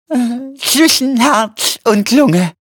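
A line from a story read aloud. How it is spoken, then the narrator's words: Doctor groaning. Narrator (German): stöhnte der Doktor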